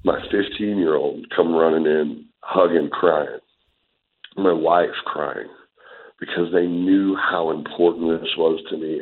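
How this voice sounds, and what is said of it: Emotional, choked-up voice. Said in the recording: “I'm getting emotional just talking about it now”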